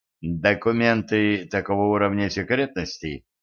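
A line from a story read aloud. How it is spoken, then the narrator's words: Icy explanation. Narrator (Russian): ледяным тоном пояснил Денис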